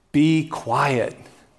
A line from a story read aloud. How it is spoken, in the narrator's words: many people yelled at him